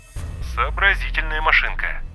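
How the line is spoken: Muttered. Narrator (Russian): пробормотал Язон

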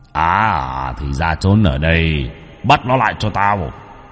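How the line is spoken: Deep booming voice. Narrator (Vietnamese): Tên này cất tiếng ồm ồm

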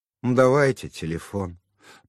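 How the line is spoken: Grumbling. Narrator (Russian): проворчала

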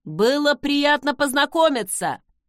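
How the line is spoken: Shouted. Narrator (Russian): крикнул Закари ей в затылок

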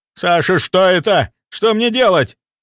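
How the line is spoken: Shouted. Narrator (Russian): прокричал Демидов

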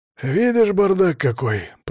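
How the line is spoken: Deep bass voice. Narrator (Russian): пробасил Игорь

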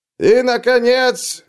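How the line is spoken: Herald roaring all-out. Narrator (Russian): взревел глашатай, напоследок выкладываясь по полной

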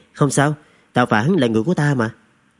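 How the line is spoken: Smiling, grateful. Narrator (Vietnamese): Trần Thực mỉm cười cảm tạ

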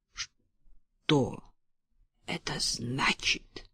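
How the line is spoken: Quiet, menacing. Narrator (Russian): Грозно, хотя и тихо сказала она

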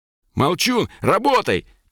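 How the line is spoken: Shouted. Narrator (Russian): крикнул Колян

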